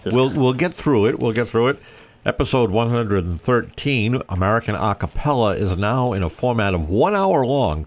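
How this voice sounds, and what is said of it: Slightly stuffy congested voice. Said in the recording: “You sound a little stuffy. ... I'm a little stuffy today. A little summer cold setting in.”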